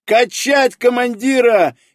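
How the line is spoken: Frantic overjoyed yell. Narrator (Russian): истошно завопил астроном, не в силах справиться с переполнявшими его эмоциями

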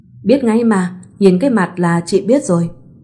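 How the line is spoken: Smiling. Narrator (Vietnamese): Chị mỉm cười rồi nói

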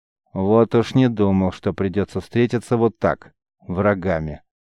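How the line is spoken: Quiet, slightly annoyed. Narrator (Russian): негромко, с долей досады произнес воин

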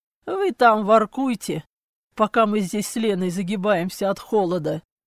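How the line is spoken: Brother's hoarse rasp. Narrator (Russian): Прохрипел братец

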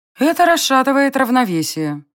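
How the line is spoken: Gloomy goddess. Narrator (Russian): мрачно отозвалась богиня

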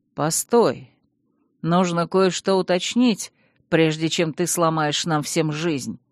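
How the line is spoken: Grim declaration. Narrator (Russian): мрачно заявил старший принц

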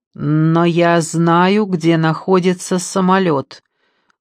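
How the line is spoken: Loud, fearful announcement. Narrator (Russian): громко объявила Ники, стараясь не стучать зубами от страха

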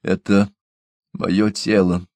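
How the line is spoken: Strange anguished broken voice. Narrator (Russian): сказала она совсем не своим, страдальчески надломленным голосом

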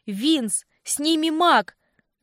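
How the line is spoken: Unrestrained loud yell. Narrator (Russian): заорала я, уже не стесняясь

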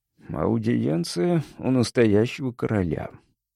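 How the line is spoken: Mumbling while chewing. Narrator (Russian): пробормотал я, разжевывая кусок курятины

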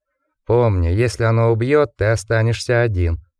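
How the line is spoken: Grim warning. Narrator (Russian): мрачно предупредил он

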